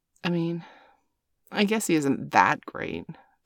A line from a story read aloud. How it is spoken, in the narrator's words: Bailey muttered in response